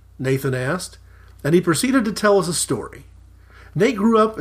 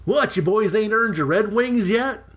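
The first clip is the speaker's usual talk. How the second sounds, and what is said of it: Oklahoma country accent. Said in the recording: “Switch to Oaky accent for the Nate voice.”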